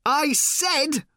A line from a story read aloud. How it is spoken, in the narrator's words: shouted Ford